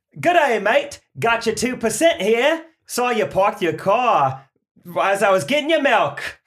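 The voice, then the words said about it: Put-on Australian accent. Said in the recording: “You're a milkman from Australia, born and raised in Australia, who now lives in Boston”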